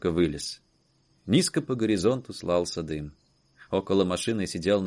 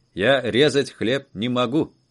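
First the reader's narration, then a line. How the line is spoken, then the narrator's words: Plain. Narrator (Russian): ответил водитель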